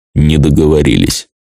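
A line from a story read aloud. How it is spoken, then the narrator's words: Dead lifeless voice. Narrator (Russian): мертвым голосом ответил Нортис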